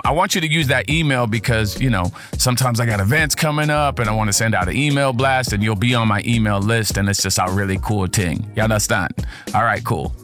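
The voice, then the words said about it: Speaks with a noticeable accent. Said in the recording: “Accent just come out sometimes.”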